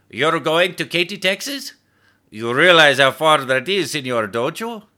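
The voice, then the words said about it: Thick accent. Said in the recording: “with a thick accent”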